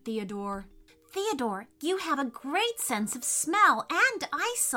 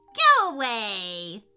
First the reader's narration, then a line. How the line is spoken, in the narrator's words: yelled the witch